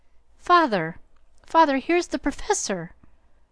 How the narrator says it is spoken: Joe cried out with a scandalized face

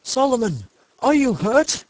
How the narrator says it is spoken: They cried

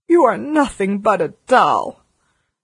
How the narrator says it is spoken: she cried

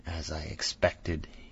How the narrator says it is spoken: he murmured, with that hissing inspiration of his

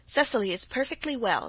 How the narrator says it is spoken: said Aunt Janet sharply

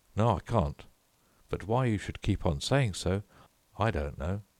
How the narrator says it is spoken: rather crossly

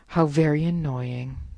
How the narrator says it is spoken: sighed the eagle, thinking regretfully of the tender morsel he had let slip

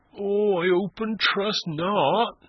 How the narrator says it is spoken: moaned Christian

